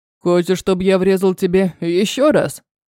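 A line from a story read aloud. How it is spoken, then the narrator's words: Growled. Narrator (Russian): рыкнул Руан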